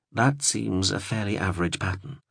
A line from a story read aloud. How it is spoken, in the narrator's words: replied softly